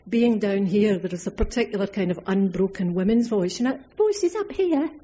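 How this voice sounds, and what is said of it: Scottish accent. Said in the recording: “I'm Scottish ... inflected by an accent ... where we come from, it's a lot gruffer”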